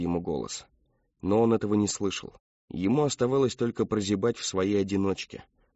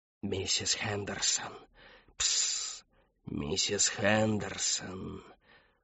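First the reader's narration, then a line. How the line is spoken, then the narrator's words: Whispering into ear. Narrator (Russian): Он шептал ей прямо в ухо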